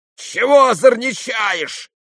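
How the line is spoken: Townsman shouting. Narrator (Russian): закричал мещанин

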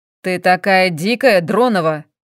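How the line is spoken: Barked. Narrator (Russian): Рявкнул он

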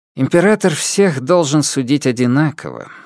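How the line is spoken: Sighing. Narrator (Russian): вздохнул цесаревич

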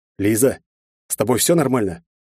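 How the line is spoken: Strained hoarse croak. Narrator (Russian): с трудом прохрипел я резко пересохшим горлом

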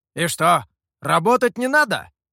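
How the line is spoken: Monkey, commanding tone. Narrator (Russian): Командным тоном спросил обезьяна

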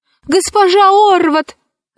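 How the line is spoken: Shouted. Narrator (Russian): закричала она

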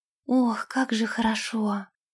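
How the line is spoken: Whispering. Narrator (Russian): прошептала она

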